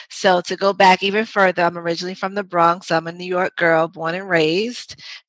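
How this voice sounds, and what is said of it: New York accent. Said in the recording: “you might hear some of my New York accent come out with some things like "water" and "mother." ... we don't say the ers”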